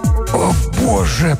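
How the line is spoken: Wheezing. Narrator (Russian): прохрипел Блаувельд

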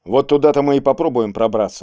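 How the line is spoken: Plain. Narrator (Russian): сказал Кейск Борису

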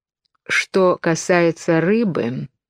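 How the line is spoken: Slow, self-important, close to ear. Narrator (Russian): медленно и важно сказала она, склонившись к Алисину уху

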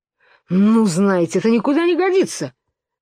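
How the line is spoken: Furious exclamation. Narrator (Russian): воскликнул Пустик-дутик, впадая в ярость

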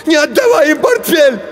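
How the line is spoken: Shouting. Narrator (Russian): Женя закричал

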